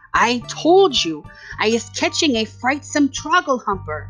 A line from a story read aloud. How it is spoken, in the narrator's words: he cried